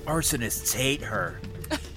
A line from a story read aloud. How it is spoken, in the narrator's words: Moose leans over to Neil and whispers